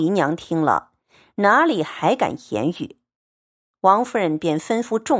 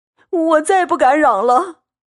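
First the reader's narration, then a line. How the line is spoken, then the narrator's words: Frightened crying. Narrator (Chinese): 贾环吓得哭道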